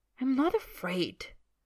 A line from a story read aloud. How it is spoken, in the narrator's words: Draco says hotly